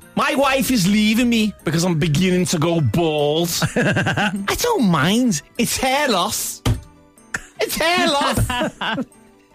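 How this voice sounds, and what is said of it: Put-on Liverpool accent. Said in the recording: “I need a Liverpool accent for this one. ... Liverpool accent”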